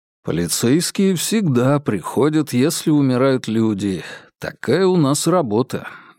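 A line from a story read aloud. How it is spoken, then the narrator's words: Gentle. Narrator (Russian): мягко произнес Феликс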